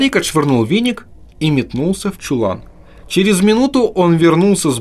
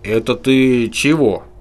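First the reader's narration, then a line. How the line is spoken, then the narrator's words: Uncertain question. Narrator (Russian): неуверенно спросил Марухон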